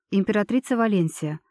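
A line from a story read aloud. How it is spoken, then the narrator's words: Even tone. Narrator (Russian): ровным тоном ответила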